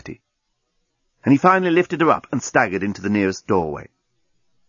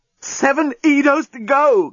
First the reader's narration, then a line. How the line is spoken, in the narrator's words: gasped the journalist